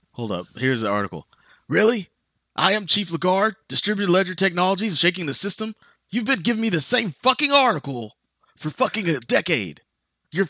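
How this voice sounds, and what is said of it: J Jonah Jameson character impression. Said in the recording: “Was that a good okay J Jonah J Jonah Jameson? ... I am good with that J Jonah Jameson impression.”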